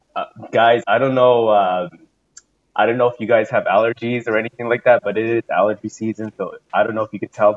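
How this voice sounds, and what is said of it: Hoarse, congested voice. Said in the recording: “my voice is completely gone. My nose is completely stuffed up”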